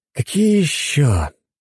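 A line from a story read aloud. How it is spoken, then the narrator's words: Heavy sigh. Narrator (Russian): Тяжело вздохнул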